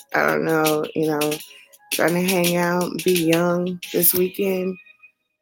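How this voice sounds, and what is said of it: Tired, worn-out voice. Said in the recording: “Please forgive my voice. I'm like super tired ... I'm like kind of tired”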